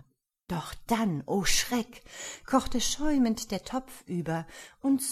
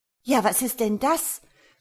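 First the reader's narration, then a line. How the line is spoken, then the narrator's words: Surprised exclamation. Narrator (German): rief die Frau überrascht aus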